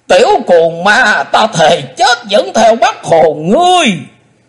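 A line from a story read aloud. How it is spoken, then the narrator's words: Hateful shout. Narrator (Vietnamese): lão lùn quát lên giọng căm hận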